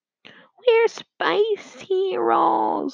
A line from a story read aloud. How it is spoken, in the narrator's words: whined John